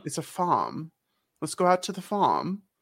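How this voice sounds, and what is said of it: Poor attempt at British accent. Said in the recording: “I'm trying to do a British accent. It's not going very well. ... It's going poorly.”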